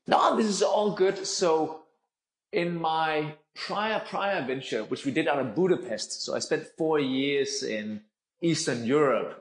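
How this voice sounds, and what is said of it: Danish-accented English. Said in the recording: “I am originally Danish, though, and that will be the accent for the remainder of the 30 minutes of this podcast ... It's definitely an interesting accent.”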